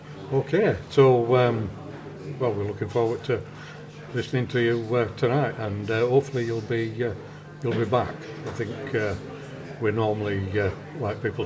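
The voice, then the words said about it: Bradford Northern English accent. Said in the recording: “speaks proper Bradfordian, which is not so often heard these days”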